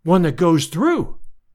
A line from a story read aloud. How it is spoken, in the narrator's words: I cried